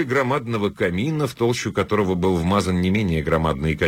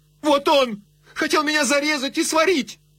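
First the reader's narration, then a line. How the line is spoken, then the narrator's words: Shout. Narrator (Russian): она крикнула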